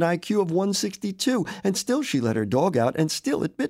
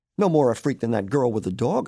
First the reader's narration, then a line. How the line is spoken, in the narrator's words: I said